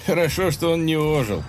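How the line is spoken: Laughing. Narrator (Russian): засмеялся Маракуда

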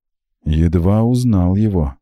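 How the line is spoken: Sorrowful sigh. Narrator (Russian): сокрушенно вздохнул Макс

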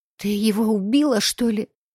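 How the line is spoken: Slightly hoarse question. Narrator (Russian): Чуть сипло уточнила она

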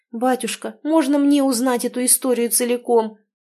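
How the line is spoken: Eager pleading. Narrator (Russian): взмолилась дочь, изнывая от любопытства

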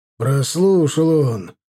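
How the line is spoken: Growled. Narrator (Russian): буквально прорычал Милар

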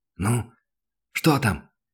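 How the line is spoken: Whispered shout. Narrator (Russian): шепотом крикнул Данил

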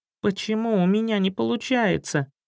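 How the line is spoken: Upset plaintive squeak. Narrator (Russian): С жалобным выражением на морде расстроенно пропищал

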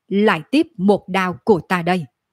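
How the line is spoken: Cold snort, angry shout. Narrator (Vietnamese): hừ lạnh một tiếng rồi giận dữ hét

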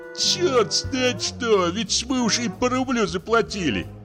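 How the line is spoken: Groaning. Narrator (Russian): простонал Яшкин, учитель уездного училища

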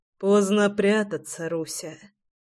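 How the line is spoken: Hoarse mutter. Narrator (Russian): хрипло пробормотал Прохор

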